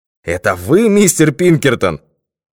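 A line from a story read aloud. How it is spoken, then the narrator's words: Exclaiming. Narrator (Russian): воскликнул он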